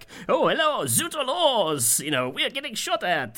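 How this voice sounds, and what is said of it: Comedic French-accented robot voice. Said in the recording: “the guy doing a very comedy French robot ... your impression”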